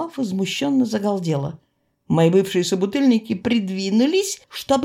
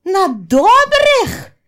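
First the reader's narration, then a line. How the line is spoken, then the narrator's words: Even louder wail. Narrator (Russian): завопила пуще прежнего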